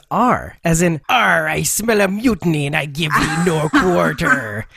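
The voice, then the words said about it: Put-on pirate accent. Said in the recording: “me pirate speak ... this accent”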